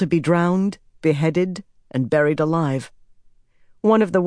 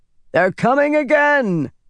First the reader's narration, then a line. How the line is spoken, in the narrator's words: voice yelled